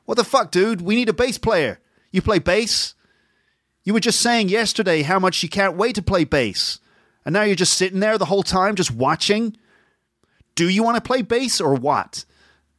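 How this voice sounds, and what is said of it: Put-on American accent. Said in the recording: “That's my American accent.”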